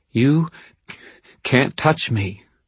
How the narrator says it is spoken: Justine stammered

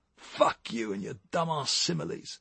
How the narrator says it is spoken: snapped Tommy, taken aback

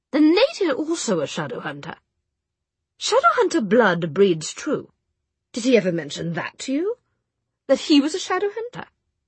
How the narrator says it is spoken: said Charlotte coldly

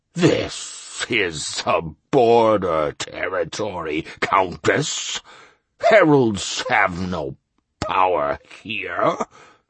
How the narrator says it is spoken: grumbled the registrar

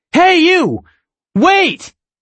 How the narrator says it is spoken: I step forward, yelling

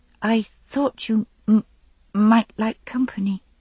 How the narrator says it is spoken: she added timidly

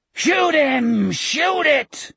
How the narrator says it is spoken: Morgan howled

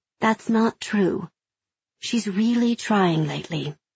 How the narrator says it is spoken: Mom says, her voice gentle

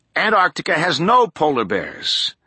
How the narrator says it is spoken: Tolland said

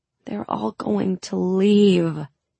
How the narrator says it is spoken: I moaned

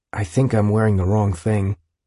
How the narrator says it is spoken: he said quietly to Jude

